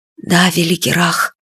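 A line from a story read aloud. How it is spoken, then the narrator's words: Whisper. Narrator (Russian): прошептал Фадейк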